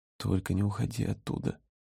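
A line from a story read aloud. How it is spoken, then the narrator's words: Pleading whisper. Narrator (Russian): прошептал он с мольбой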